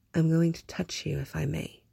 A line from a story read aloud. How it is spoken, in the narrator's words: he said very softly